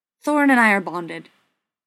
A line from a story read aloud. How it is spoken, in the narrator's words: Bilbo blurted, expelling the words as fast as he could